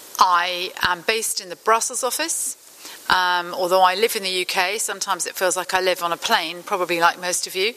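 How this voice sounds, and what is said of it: European accent. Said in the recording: “hear from my voice that I am a European”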